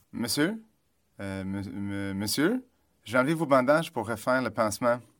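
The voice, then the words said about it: French with a Canadian accent. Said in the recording (French): “une voix qui me parle en français avec un adorable accent canadien”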